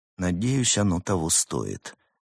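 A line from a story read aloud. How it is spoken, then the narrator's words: Quiet voice. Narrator (Russian): тихо произнес он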